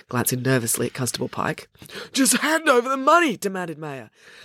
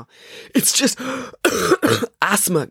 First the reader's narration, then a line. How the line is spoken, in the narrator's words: gasped Maya